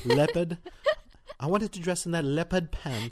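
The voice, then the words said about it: Mock Australian accent. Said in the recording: “Australian accent”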